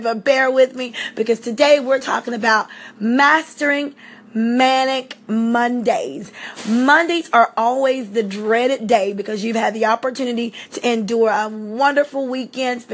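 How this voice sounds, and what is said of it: Slightly hoarse voice. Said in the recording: “I'm a little bit hoarse. I have allergies”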